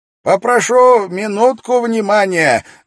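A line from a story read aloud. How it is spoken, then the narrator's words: Loud interruption. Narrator (Russian): громко прервал раздумья собравшихся Кроули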